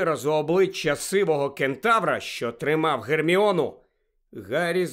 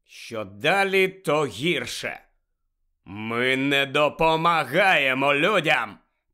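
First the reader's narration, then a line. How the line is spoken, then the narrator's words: Growled. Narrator (Ukrainian): прогарчав той кентавр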